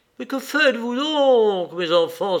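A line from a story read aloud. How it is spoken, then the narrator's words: Exclaimed. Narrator (French): s'écria Ivan Kouzmitch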